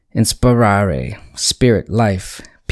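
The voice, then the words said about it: Word said with a slight twang. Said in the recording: “I'm just trying to put a little twang on that.”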